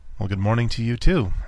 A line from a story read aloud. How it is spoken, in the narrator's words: said finally